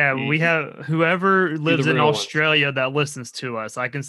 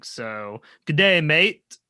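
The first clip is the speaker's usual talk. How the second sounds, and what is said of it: Bad put-on Australian accent. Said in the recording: “that god awful Australian shrimp accent. On the Bobby, you know what I mean? Crocodile Dundee.”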